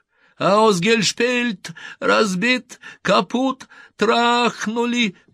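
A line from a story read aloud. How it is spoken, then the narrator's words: Shouting in a strange voice. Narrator (Russian): прокричал он не своим голосом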